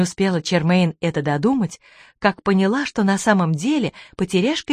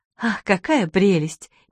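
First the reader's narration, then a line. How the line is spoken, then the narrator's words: Sighing. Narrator (Russian): миссис Бейкер вздохнула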